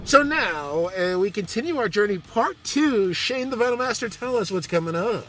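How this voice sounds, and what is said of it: Announcer-style radio voice. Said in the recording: “There's my radio voice again”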